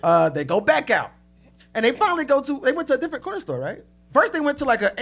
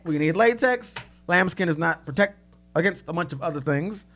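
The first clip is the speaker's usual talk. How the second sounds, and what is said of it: Impression of an unidentified person. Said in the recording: “I'm doing an impression of somebody just now as well. I don't know who that was.”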